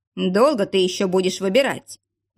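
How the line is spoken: Displeased grumbling. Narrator (Russian): недовольно проворчал Алексей

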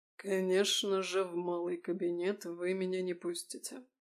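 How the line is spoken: Muffled, hollow voice. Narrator (Russian): глухо произнес Езаров

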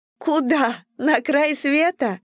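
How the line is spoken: Laughing question. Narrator (Russian): рассмеялась Дейзи и спросила

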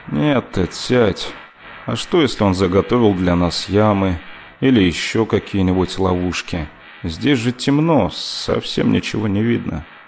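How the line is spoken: Tired objection. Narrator (Russian): устало возразил Гористер

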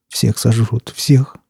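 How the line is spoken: Ragged man muttering. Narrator (Russian): бормотал оборванец

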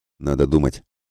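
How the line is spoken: Snorting grunt. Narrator (Russian): хмыкнул Мирослав

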